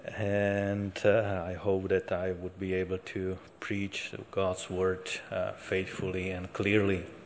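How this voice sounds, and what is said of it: Speaker's own accent. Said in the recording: “I hope my accent will not be too burdensome for you.”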